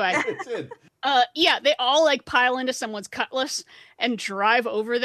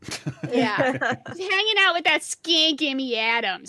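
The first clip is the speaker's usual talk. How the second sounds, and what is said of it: Put-on Boston accent drifting New York. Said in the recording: “Boston slur ... I don't know what the hell accent that was. That went very New York.”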